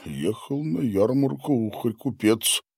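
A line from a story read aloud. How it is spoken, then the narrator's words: Muttering to himself. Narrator (Russian): Пробормотал он себе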